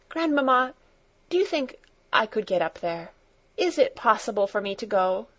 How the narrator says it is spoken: she asked eagerly

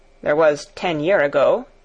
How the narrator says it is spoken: he mumbled

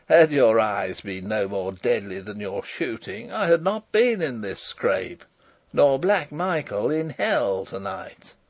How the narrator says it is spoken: laughed Rupert

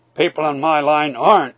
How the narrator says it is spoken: he answered grimly

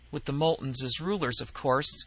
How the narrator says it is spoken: Gray murmured

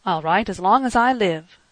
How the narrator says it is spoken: cried the boy impetuously

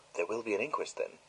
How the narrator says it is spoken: whispering to Poirot

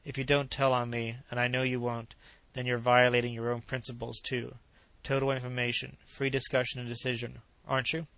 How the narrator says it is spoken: She sighed

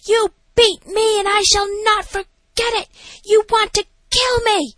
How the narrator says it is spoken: screaming at some nurse, saying

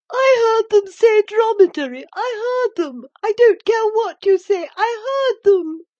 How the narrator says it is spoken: squealed the odious Dolores

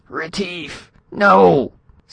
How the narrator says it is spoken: Spradley yelped

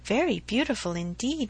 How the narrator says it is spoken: replied Emma, and she spoke so kindly

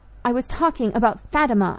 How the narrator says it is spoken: I cried in a rage

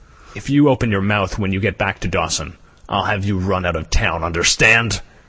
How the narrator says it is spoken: Beauty Smith replied with a grunt

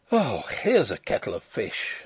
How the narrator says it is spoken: I groaned

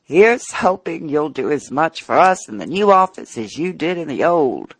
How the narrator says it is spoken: Some friends with a laughing

